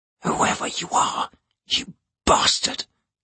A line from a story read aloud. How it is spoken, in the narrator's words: he whispered